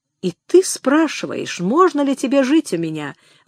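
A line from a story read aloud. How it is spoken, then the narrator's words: Bitter exclamation. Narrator (Russian): воскликнул он с горечью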